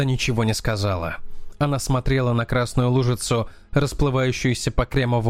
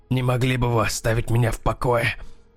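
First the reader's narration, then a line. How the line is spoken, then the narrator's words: Hoarse rasp. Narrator (Russian): прохрипел Дэнни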